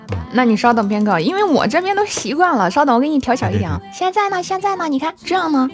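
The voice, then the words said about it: Slight Northeastern Chinese accent, loud voice. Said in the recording (Chinese): “你是东北人吗？ ... 是不是说话有点东东北口音？ ... 你声音 大”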